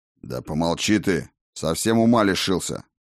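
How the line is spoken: Growling. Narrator (Russian): зарычал на сородича Крегер

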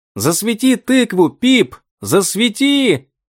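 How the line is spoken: Shouting. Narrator (Russian): закричал Том

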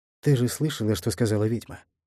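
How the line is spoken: Quiet male voice. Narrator (Russian): произнес он тихо

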